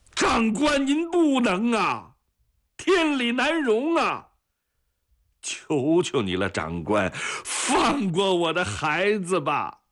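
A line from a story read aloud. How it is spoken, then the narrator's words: Desperate shout. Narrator (Chinese): 方运初大喊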